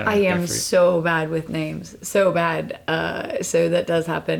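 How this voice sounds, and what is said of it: American accent. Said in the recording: “being both American and female. Like I probably stand out ... because of my accent.”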